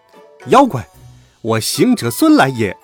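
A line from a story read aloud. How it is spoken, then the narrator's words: Fierce loud shout. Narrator (Chinese): 厉声高叫道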